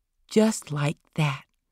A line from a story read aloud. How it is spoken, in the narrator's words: she whispered